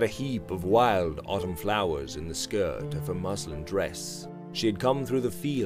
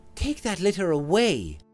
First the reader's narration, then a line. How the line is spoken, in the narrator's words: she said sharply